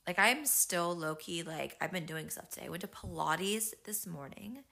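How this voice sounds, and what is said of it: Voice worn down, sounds unwell. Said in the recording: “My voice is not great. I'm currently fighting a little bit of a cold.”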